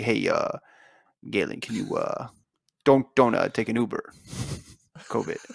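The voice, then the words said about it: Imitates another person's voice. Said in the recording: “That was a great impression of Mike Smith talking to his athlete”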